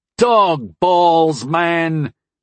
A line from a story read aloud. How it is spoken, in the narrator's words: Harm yelled